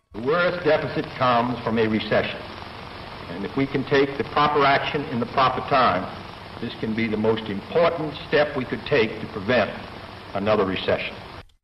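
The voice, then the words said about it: Slight noticeable accent. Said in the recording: “You can hear a little bit of an accent in there, right?”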